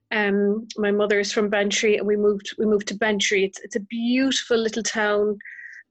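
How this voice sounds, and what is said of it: Irish accent. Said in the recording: “you've got this beautiful Irish accent ... it just sounds wonderful and beautiful”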